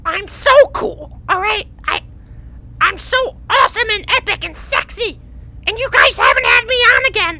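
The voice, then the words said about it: Grating, annoying character voice. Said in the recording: “your voice is really fucking annoying. ... It's very grating.”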